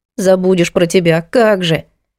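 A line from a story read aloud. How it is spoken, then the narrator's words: Grumble. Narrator (Russian): Проворчала Лида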